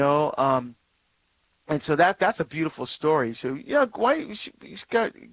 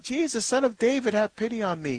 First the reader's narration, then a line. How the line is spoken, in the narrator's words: he cries out